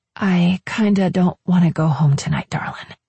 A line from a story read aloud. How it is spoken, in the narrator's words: I explained softly